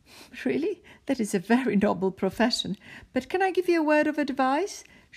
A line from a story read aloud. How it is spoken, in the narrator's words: said and started to laugh